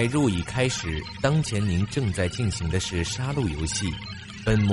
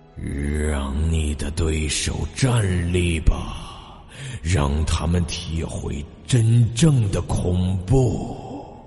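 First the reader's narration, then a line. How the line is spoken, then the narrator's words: Hoarse male voice. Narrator (Chinese): 一个沙哑的男声念道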